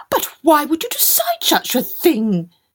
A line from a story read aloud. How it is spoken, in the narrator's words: they wailed